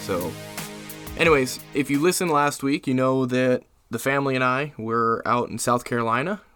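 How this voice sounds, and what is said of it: Slightly sleepy voice. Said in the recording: “I sound a little sleepy”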